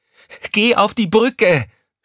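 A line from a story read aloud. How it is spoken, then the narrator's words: Shouted angrily. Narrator (German): schrie Crescentia Rausch sie an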